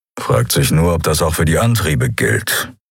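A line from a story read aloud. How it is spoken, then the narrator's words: Grumbling. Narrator (German): brummte Keru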